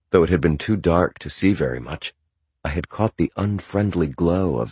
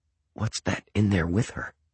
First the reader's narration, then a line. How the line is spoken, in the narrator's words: I whispered